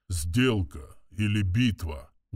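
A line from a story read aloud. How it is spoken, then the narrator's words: Muffled low voice. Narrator (Russian): глухо проговорил орочий вождь, массивный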